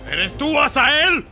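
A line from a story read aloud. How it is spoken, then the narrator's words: Shouted. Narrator (Spanish): le gritó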